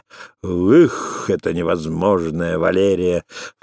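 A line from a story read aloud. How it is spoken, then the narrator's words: Echoing, laughing. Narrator (Russian): вторила и хохотала над собой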